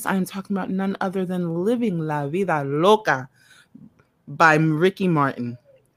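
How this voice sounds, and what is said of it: Put-on Spanish accent. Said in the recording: “Look at you with the Spanish accent.”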